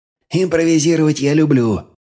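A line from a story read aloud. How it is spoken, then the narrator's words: Forced cheerfulness. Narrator (Russian): нарочито бодро поддержал командира Ромео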